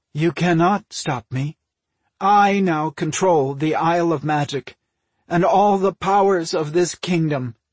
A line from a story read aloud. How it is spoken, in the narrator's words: Magna replied, her voice strangely flat